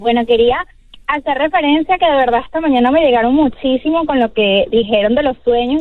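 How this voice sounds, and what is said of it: Venezuelan Spanish accent. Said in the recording (Spanish): “Me encanta ese acento venezolano.”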